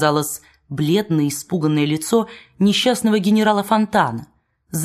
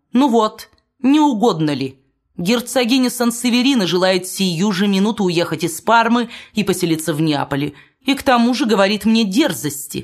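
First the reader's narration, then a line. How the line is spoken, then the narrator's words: Shouting. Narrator (Russian): крикнул принц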